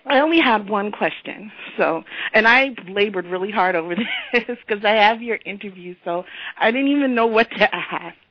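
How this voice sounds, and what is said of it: Sick, unwell-sounding voice. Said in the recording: “Sorry, I sound terrible, but I'm sick.”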